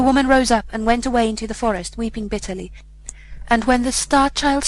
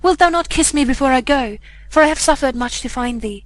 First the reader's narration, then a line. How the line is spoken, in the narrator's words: she cried